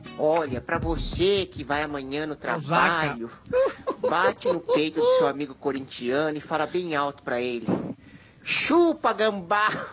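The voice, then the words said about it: Imitates another person's voice. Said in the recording (Portuguese): “Tá fraca imitação, hein, irmão? Tá fraco de Zacarias, hein? ... Não, foi uma das melhores.”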